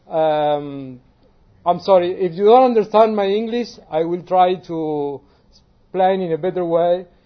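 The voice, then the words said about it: Non-native English accent. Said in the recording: “it's my accent”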